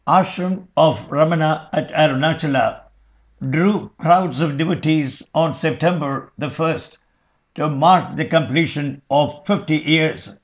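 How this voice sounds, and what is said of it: British accent. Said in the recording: “typical British accent”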